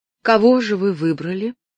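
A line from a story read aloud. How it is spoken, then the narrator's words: Even-voiced question. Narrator (Russian): ровным голосом спросила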